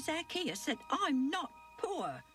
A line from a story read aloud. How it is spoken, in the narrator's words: my dad snapped back